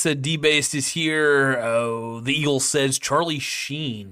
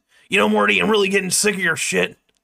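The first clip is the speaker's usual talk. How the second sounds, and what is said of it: Imitation of Rick's voice. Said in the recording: “I'm trying to do the Rick voice.”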